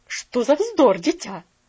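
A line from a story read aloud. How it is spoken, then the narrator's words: Slightly sharp interruption. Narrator (Russian): прервала ее миссис Керю немножко резко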